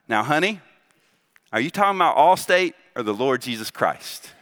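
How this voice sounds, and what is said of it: Southern US accent. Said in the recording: “in this southern accent”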